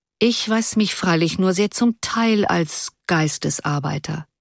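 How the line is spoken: Calm, reflective reply. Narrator (German): erwiderte er, wie wenn er einen stummen Gedanken beende, ruhig

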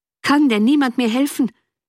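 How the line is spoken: Desperate, exhausted cry. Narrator (German): rief endlich Wentworth im Ton der Verzweiflung, als ob seine eigene Kraft ihn ganz verlassen hätte

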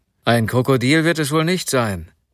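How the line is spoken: Angry man. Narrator (German): sagte der Mann, der noch immer wütend über den Verlust seiner Stiefel war

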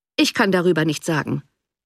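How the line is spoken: Cold reply. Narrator (German): erwiderte der Baronet kalt

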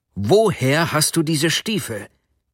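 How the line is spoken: Sharp, cutting shout. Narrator (German): rief er schneidend

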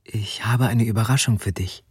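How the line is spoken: Female whisper. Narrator (German): flüsterte sie

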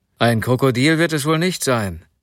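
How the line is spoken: Angry man. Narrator (German): sagte der Mann, der noch immer wütend über den Verlust seiner Stiefel war

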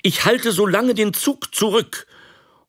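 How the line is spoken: Calling out. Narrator (German): rief er

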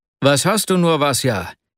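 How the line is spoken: Breathless exclaiming after effort. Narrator (German): rief er schließlich aus, als er ihn mit großer Mühe einholte

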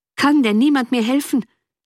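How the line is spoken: Desperate, exhausted cry. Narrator (German): rief endlich Wentworth im Ton der Verzweiflung, als ob seine eigene Kraft ihn ganz verlassen hätte

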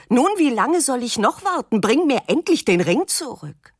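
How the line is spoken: Nervous, uncontrolled shouting. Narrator (German): Sie wird nervös, weil der Junge noch immer nicht damit zurück ist und schreit unbeherrscht

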